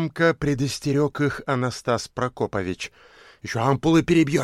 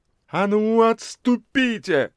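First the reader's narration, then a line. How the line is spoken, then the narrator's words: Furious shout. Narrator (Russian): яростно крикнула дама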